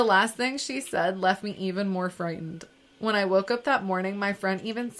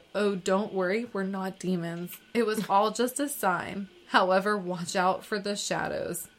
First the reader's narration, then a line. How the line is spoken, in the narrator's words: she chuckled and said